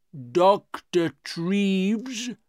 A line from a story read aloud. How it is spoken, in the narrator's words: he said slowly